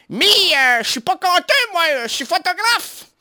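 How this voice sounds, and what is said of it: Put-on northern French Ch'ti accent. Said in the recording (French): “refait l'accent du ch'ti”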